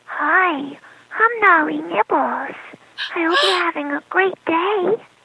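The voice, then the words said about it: Sweet little cartoon character voice. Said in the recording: “Give me a little voice of Noli Nibbles. Give me a little something so we know she's sweet. ... Oh my God, that's so precious!”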